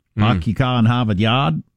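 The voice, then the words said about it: Put-on Boston accent. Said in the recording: “Number two, Bostonian.”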